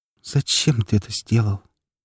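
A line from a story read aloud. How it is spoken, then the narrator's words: Barely audible, muffled by hands. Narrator (Russian): Ее голос сквозь ладони звучал еле слышно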